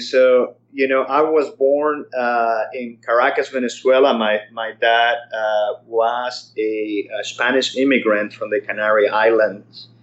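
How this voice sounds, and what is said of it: Non-American accent. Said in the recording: “I can tell from your accent that you're not originally from Irvine, California.”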